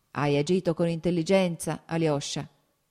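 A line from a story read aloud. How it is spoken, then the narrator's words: Strong baritone. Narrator (Italian): disse il capitano con una forte voce baritonale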